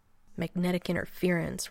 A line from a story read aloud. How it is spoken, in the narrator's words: Rodney muttered darkly